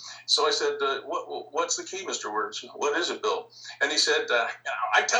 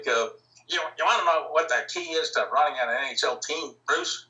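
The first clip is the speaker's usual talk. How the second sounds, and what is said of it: Imitated Midwest American accent. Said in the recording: “you have that accent, that Midwest accent, kind of like this.”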